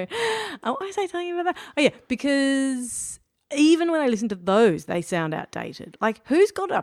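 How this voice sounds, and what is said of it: Usual voice. Nothing is said of it.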